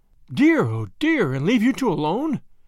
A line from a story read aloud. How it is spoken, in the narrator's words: cried Grandma